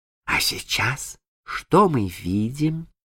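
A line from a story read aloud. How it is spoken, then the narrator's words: Whispered in the dark. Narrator (Russian): Джейн шептала в темноте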